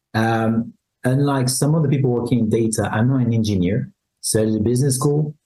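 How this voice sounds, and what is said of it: French accent. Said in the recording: “If you haven't heard it from accent, I'm French.”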